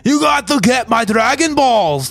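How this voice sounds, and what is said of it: Deliberately bad Scottish accent. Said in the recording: “he's supposed to have, like, I think a Scottish accent, but the Scottish accent is so bad ... like a really bad Scottish accent.”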